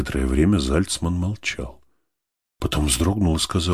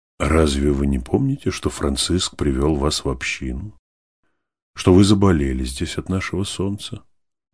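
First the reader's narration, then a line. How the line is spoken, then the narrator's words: Gentle question. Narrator (Russian): спросил, ласково нагибаясь к нему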